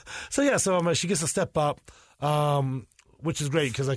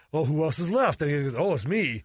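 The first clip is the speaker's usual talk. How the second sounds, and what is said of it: Imitates another person's voice. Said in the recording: “a good Fasenko impression.”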